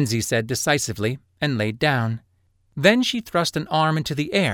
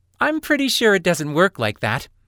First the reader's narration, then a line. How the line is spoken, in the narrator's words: Lin said, laughing